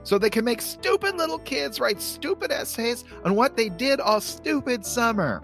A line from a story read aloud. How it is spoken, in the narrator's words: Then Charlie Brown screams